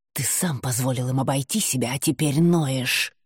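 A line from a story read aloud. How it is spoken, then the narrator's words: Hissed. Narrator (Russian): прошипела она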